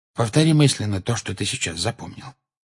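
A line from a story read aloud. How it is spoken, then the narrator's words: Quiet. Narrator (Russian): тихо сказал ему Люпин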